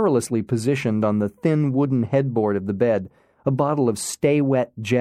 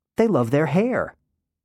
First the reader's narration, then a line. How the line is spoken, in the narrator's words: excitedly said